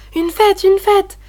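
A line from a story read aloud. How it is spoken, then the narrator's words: Children exclaiming. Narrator (French): s'écrièrent les enfants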